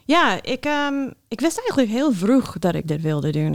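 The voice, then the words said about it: American accent speaking Dutch. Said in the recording (Dutch): “Je hebt wel een accent. ... Oh ja, daar kom je vandaan.”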